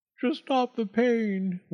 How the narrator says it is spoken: whimpered the fox

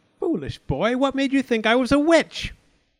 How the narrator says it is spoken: She yelled

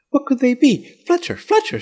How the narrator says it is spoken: cried

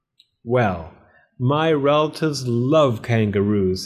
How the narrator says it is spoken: said Mrs

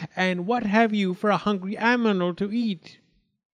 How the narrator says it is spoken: looked around fiercely and cried

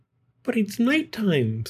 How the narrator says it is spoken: Stella Luna squeaked

